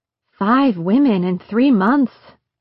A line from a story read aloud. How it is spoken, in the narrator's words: Catherine said